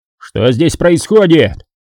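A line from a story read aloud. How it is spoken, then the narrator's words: Shouting. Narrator (Russian): закричал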